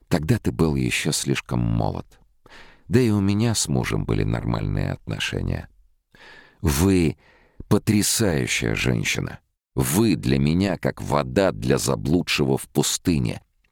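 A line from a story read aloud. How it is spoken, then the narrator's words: Muttered awkward blurt. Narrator (Russian): пробормотал он первую пришедшую на ум глупость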